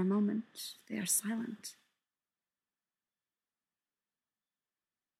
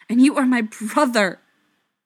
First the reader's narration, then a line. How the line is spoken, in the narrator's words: Feely snaps